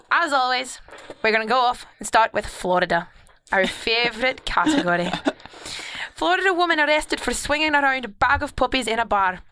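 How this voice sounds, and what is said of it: Scottish accent. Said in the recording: “your Scottish accent... It sounds Spanish sometimes.”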